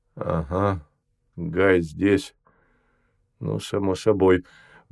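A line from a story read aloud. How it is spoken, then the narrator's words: Grumbled under breath. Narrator (Russian): буркнул себе под нос Гамов, кое-что уясневший для себя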